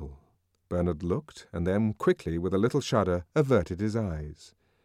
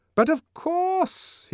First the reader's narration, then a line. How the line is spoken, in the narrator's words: he cried, making up for his first hesitations with an excess of noisy cordiality